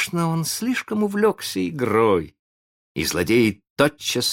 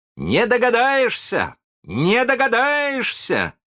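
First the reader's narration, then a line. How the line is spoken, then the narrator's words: Proud shouting. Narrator (Russian): кричал с гордостью Питер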